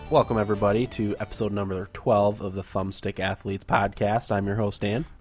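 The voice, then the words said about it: Nasal, congested voice. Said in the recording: “I'm a little bit under the weather today ... my voice is probably a little more nasally and annoying than usual”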